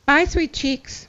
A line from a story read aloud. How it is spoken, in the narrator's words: she said